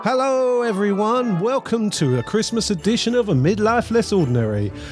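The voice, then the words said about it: Put-on accent. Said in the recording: “I don't know why I'm talking in this accent”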